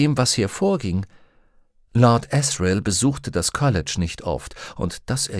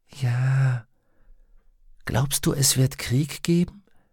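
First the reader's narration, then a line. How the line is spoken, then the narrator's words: Whispering. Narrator (German): flüsterte sie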